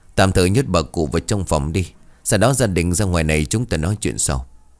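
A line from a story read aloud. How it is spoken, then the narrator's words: Helpless sigh. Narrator (Vietnamese): Thầy Hoàng thở dài bất lực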